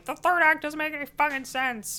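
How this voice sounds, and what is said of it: Imitates another person's voice. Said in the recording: “that's my impression of you”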